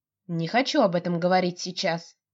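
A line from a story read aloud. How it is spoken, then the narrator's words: Irritated, stressing last word. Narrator (Russian): раздраженно сообщает девушка с нажимом на последнем слове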